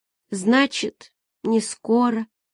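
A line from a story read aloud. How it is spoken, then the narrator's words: Sighing small woman. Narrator (Russian): вздохнула маленькая женщина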